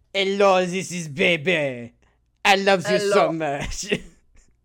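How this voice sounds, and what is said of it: Exaggerated fake French accent. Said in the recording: “the fakest, most offensive French accent possible ... the worst French accent possible”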